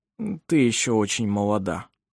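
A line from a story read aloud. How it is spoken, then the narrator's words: Mumbling, trying to sound convincing. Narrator (Russian): пробормотал Ировар, стараясь, чтобы голос его звучал убедительно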